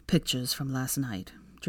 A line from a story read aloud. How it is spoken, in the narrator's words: Draco sighed